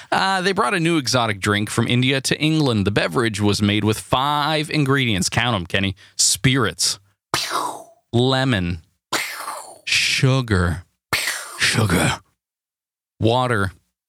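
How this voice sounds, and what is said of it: Impression of the Men in Black bug. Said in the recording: “What was that? What was that accent? ... impression. ... Was that the Men in Black bug? ... Criminal intent.”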